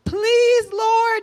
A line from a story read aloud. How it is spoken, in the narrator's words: they cried out to the Lord